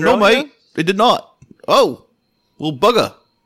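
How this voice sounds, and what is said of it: Poor attempt at British accent. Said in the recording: “I was doing my best, man. Trying my best. Where's your British accent ... Nowhere ... can't figure out a way to fucking slur a British accent”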